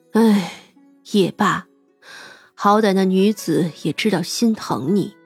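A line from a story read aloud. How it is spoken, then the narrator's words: Sigh. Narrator (Chinese): 范姑姑叹了口气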